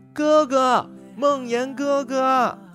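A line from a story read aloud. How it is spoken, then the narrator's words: Clear ringing voice. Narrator (Chinese): 清脆的声音回荡在院子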